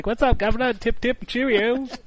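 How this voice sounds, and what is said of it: Exaggerated mock British accent. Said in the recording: “does have a terrible British accent. He's over there like”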